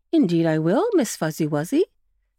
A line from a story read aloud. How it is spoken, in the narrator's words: said Mr